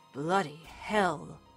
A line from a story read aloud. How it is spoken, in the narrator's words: Thorne muttered